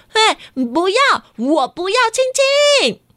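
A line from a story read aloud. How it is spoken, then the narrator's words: Loud. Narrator (Chinese): 瑞希又大声的说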